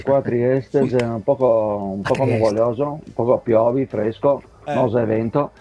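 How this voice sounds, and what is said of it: Imitates Montalbano character's accent. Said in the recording (Italian): “l'accento di Montalbano”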